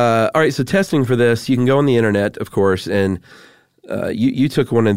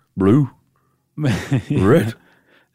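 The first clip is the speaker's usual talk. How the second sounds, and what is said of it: Cartoon dog character voice. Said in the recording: “good Scooby impression”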